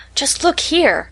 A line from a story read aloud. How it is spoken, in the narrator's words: cried Katie